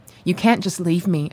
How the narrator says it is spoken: said

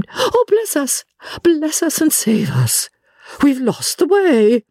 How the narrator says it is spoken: Miss Lavish had got the name, she broke off and exclaimed

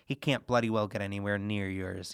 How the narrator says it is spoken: he muttered

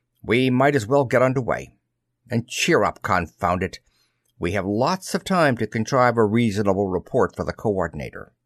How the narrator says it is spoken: Amshel Mayer snapped

